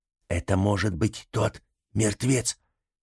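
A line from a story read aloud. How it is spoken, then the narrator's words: Whisper. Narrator (Russian): прошептала Ниела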